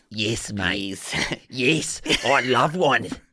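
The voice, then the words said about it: Put-on Australian accent. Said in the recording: “An Australian accent”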